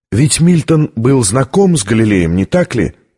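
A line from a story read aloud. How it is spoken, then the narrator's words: Plain question. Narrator (Russian): спросила Витория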